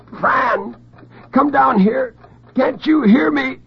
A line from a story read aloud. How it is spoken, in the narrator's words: The gag absorbed his shrieks like a sponge